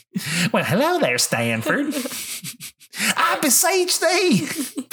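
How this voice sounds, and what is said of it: Cartoon character voice impression. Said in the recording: “I like your Little Gideon impression.”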